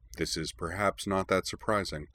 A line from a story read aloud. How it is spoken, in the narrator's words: put in Corwin dryly